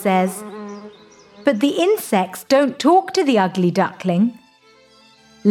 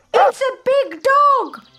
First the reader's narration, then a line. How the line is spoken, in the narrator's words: the birds shout